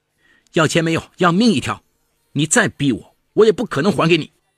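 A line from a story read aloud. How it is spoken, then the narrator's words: Very angry. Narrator (Chinese): 陈玉十分恼怒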